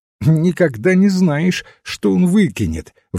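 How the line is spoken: Cheerful exclamation. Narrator (Russian): воскликнул жизнерадостно казначей

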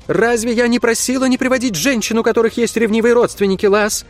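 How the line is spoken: Shouted. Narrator (Russian): крикнула она

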